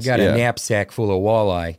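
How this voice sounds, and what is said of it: Put-on Minnesota accent. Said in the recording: “Wisconsin ... That's kind of like Minnesota.”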